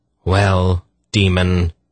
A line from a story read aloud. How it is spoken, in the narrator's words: Polgara said in a deadly voice